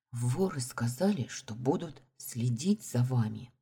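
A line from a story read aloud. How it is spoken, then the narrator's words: Said quietly. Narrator (Russian): тихо произнесла я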